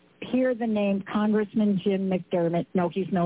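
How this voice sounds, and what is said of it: Usual voice. Nothing is said of it.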